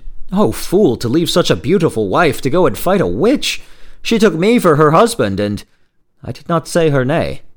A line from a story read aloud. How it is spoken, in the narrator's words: the younger man exclaimed